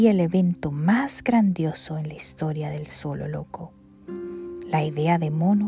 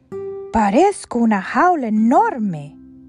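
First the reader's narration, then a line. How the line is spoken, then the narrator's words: Exclaimed. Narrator (Spanish): exclamó Elefanta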